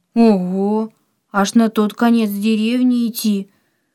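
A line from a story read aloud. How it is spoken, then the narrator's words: Surprised, sad question. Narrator (Russian): Удивленно и в то же время печально спросил Антон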